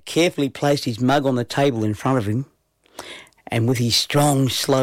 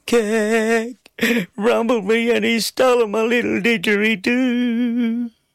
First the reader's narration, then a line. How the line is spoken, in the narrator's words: Between my sobs, managed to weep